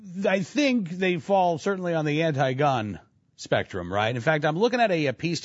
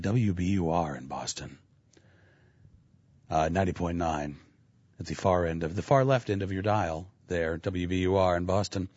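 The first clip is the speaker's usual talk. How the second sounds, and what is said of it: Mock public radio announcer voice. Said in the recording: “I have to use my public radio voice”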